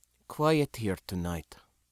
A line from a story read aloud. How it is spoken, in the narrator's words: In English, Sindra murmured